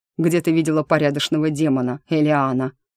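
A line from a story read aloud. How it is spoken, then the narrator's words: Chuckling. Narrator (Russian): хохотнул тот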